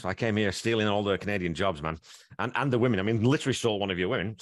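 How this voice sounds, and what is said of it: Northern English accent. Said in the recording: “if anyone can't tell from the accent, he's not native to Canada. That's definitely not a Canadian accent, eh? It's a little different. ... I grew up in a town called Wigan in northwest England”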